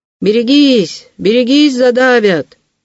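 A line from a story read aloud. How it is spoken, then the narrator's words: Policeman shouting. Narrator (Russian): закричал городовой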